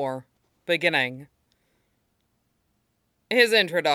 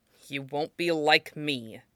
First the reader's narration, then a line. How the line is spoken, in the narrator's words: he said through his teeth